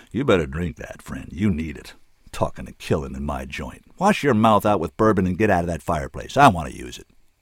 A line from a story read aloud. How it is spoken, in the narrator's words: Callahan pointed to the drink Shorty still held out and growled